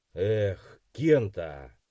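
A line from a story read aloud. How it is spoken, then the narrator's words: Heavy sigh, interrupting. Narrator (Russian): тяжело вздохнув, перебил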